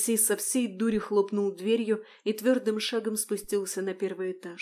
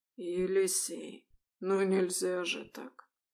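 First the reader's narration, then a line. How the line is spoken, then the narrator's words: Quiet reproach. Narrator (Russian): Негромко укорил Харитон Никифорович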